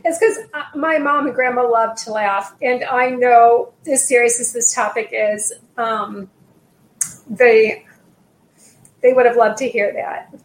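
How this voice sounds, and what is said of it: Emotional, moved voice. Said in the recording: “I'm getting emotional.”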